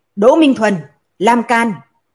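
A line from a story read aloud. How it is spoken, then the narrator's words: Loud shout. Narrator (Vietnamese): quát lớn nói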